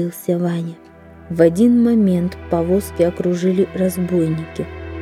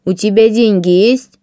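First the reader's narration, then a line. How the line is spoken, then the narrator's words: Menacing question. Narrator (Russian): грозно спросил он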